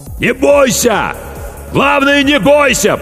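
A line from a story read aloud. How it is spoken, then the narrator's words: Shout drowned by noise. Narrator (Russian): прокричал капитан, но его слова потонули в шуме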